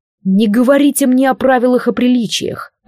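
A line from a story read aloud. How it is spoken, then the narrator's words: Icy, furious hiss. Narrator (Russian): прошипел Алистар ... выпуская в голос лишь часть ледяной ярости, которая кипела внутри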